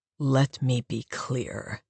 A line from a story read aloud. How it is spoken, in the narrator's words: he growled, furious